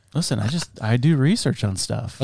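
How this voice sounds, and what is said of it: Spot-on impression of a friend. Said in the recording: “That was actually a really good impression. ... That was spot on. ... like, is it Josh talking”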